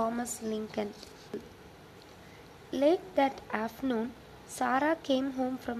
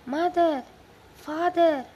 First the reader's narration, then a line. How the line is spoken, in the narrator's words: she cried